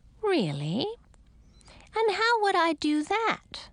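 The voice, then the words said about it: Friendly, sweet-toned character voice. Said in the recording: “in a friendly voice”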